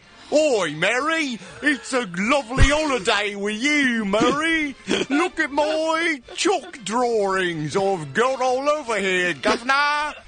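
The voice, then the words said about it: Dick Van Dyke's bad Cockney accent. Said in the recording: “Bert the Chimney Sweep will have a better British accent this time around ... Dick Van Dyke's performance in that film is not perhaps his most convincing.”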